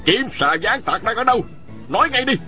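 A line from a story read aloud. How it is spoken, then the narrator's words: Angry shouted question. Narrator (Vietnamese): Ôn Phương Đạt ... giận dữ quát hỏi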